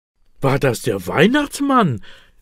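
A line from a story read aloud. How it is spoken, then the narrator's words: Excited question. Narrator (German): will Elias aufgeregt wissen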